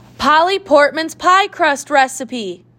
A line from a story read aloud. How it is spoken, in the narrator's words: shouted Charlie